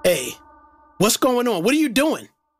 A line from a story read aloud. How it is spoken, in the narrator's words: Chris frantically asked